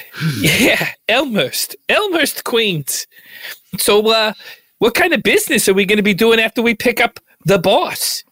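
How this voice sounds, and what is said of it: Queens New York accent. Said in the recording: “Where's your accent from? It sounds unique. ... I grew up in like the Queens area of New York. ... That's Elmhurst.”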